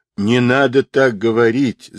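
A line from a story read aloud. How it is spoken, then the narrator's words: Laughing. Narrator (Russian): засмеялся Сунь-Кун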